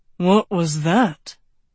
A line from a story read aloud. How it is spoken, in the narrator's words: Lance panted